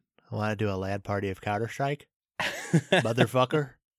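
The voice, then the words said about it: Imitates another person's voice. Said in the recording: “my Samuel Jackson impression”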